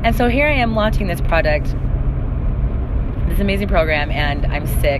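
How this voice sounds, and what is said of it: Unusually deep, manly sick voice. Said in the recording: “hence the funny voice... My voice is a little bit manly right now”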